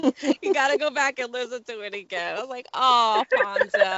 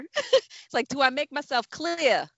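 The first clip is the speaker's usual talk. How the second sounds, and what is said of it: Imitated Bronx accent. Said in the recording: “his little Bronx accent slipped out”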